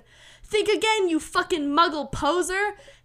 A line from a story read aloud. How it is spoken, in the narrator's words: Harry yelled